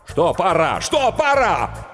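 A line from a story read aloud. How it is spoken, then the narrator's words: Nervous shout. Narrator (Russian): Букер нервно закричал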